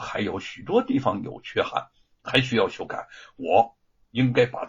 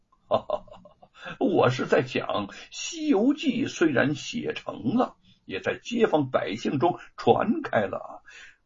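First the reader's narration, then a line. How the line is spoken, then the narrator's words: Laughing. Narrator (Chinese): 吴承恩一笑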